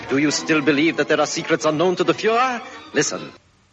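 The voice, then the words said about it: Odd mixed foreign accent. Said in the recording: “that's an interesting accent. I can't quite make out whether it's English, German, or Japanese ... little bit of everything in that one”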